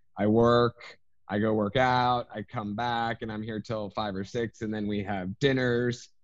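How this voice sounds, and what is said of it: Congested, stuffy voice. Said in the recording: “why I sound a little congested.”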